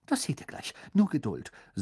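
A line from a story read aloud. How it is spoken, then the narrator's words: Excited. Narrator (German): sagte Hermine aufgeregt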